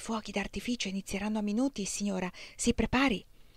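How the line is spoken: Quick whisper through teeth. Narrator (Italian): Il capitano Bush sussurrò velocemente tra i denti

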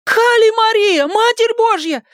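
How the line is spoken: Screaming. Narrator (Russian): завопила Маля

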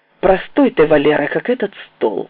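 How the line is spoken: Openly angry. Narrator (Russian): сказал откровенно зло

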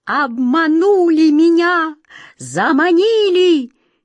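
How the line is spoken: Desperate screeching. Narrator (Russian): Черная кошка с отчаянным визгом

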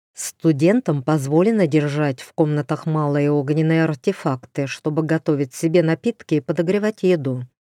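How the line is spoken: Plain. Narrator (Russian): сказал дроу

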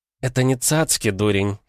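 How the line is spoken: Giggling. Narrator (Russian): хихикнула Агафья

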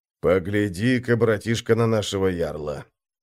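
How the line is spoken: Quiet speech. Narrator (Russian): тихо сказал младшему брату Крум

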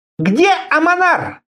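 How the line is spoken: Sharp. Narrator (Russian): резко спросила она

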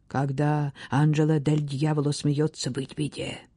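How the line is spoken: Servants whispering. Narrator (Russian): слуги шептали друг другу

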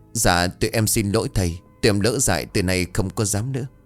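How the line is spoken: Trembling quiet voice. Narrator (Vietnamese): Thảo run rẩy rồi nói nhỏ

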